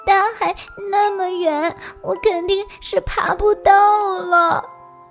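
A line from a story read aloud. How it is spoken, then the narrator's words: Crying. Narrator (Chinese): 他哭着说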